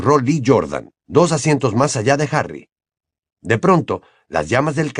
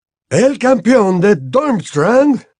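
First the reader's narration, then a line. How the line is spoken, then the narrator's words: Read aloud, loud and clear. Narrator (Spanish): leyó con voz alta y clara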